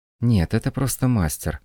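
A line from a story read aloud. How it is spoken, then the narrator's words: Sighing. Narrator (Russian): вздохнула Люся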